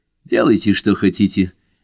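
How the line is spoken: Sharp. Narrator (Russian): резко сказал он

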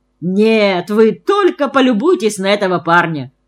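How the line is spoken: Through laughter. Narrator (Russian): сквозь смех проговорил он

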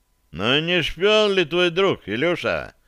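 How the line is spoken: Unpleasant inquiring voice. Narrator (Russian): осведомился богатырь неприятным голосом

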